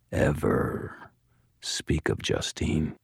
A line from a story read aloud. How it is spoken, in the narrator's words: Thomas murmured very quietly